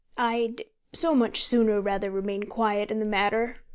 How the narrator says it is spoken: said he, in an apologetic voice

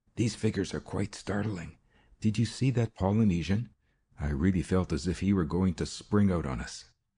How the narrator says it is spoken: The illusion evidently affected Ruth as well as me, for she whispered

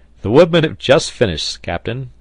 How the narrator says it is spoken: said the sailor, laughing

